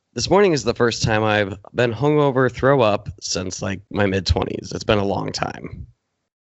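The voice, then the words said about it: Scratchy, husky voice. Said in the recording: “my voice is a little shot... Just scratchy voice... Sultry... Sultry voice.”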